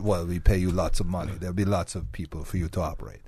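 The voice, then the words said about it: Put-on Russian accent. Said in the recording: “I'm going to have to call you Pavel from now on, by the way, with that accent.”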